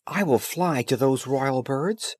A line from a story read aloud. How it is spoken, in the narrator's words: he exclaimed